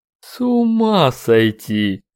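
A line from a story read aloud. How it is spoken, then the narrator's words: Drawling, brutish. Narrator (Russian): протянул брутальный двойник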